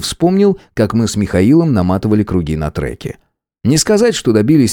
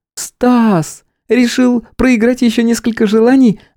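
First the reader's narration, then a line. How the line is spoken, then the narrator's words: Joyful distant exclamation. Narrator (Russian): радостно донесся возглас Стеллы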